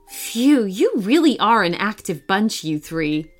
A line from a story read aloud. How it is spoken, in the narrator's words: Emily laughed